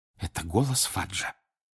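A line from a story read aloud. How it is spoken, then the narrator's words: Whispered. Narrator (Russian): прошептала миссис Уизли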